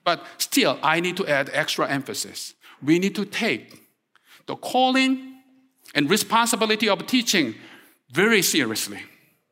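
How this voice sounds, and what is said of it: Korean accent, strongly emphasized words. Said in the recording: “I tend to accentuate each and every word with my Korean accent”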